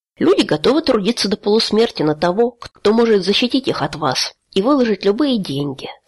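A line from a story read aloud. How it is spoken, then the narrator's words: Calm. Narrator (Russian): спокойно произнес Халор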